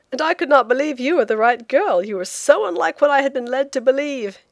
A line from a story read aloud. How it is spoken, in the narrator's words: he said with a laugh, in a burst of confidence